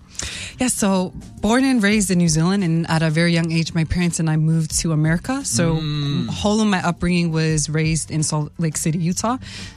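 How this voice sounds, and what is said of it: American accent. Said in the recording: “where does the American accent come from? ... So that's where the accent comes from. ... I thought I had a Kiwi accent by now. ... Absolutely not.”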